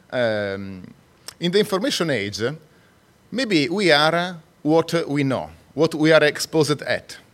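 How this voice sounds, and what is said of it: Non-native English accent. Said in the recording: “I'm not a native English speaker. So you can maybe have a hard time sometimes to get my accent.”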